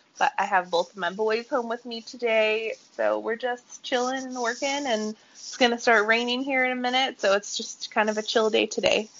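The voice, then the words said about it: Slightly nasal, congested voice. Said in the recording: “I do have a little bit of a cold, so if I sound a little nasal, that's what's going on.”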